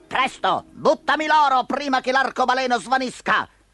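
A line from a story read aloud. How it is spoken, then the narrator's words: Thief shouting. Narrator (Italian): Sotto di lui il ladro gli gridò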